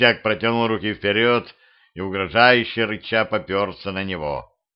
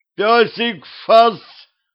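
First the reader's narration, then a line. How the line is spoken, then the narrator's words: Yelled. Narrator (Russian): заорал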